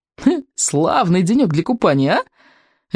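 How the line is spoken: Cheerful call. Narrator (Russian): весело окликнула она

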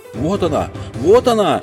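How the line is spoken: Fat man shouting. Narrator (Russian): кричал толстяк во фраке

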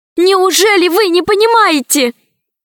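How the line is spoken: Near shout. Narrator (Russian): Почти закричала Алиса

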